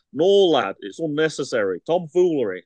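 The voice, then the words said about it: Put-on Yorkshire accent. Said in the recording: “this is where I should do my Yorkshire accent.”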